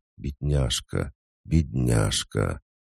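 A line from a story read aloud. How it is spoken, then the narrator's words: Whisper. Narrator (Russian): Она шептала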